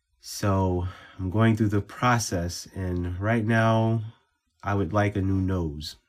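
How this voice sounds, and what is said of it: Congested voice from a cold. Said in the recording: “I sound different because I am getting over a cold”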